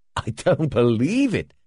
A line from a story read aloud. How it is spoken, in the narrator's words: he exclaimed